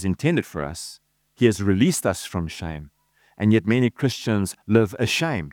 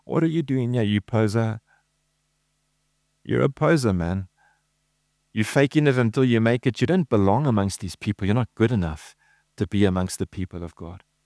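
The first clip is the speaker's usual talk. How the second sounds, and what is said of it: Whispering devil voice. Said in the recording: “little whispering voice of the devil”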